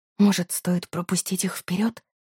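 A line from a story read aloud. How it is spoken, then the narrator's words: Panicked whisper. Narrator (Russian): прошептала я, чувствуя, как паника сжимает сердце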